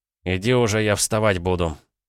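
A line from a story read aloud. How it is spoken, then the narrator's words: Grumbling. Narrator (Russian): буркнул я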